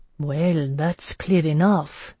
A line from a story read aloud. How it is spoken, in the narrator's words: murmured the portly gentleman